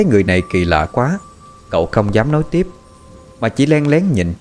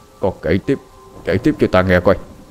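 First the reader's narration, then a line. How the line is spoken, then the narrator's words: Frightened stammering whisper. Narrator (Vietnamese): Quan tri phủ mặt bắt đầu tái nhợt, ông ta lắp bắp thì thào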